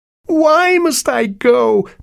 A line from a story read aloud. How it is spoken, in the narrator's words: pleaded the son